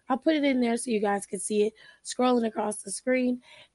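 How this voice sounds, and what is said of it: Strained voice cutting in and out. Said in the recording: “excuse my voice. It's going in and out.”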